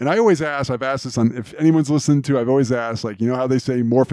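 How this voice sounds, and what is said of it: Usual voice. Nothing is said of it.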